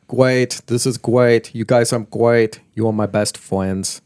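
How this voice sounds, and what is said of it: Bad put-on German accent. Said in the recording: “That's a horrible German impersonation.”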